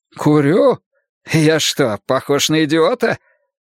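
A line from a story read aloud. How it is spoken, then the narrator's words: Sighing. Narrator (Russian): Я вздохнул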